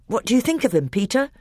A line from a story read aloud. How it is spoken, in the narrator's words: Edmund asked anxiously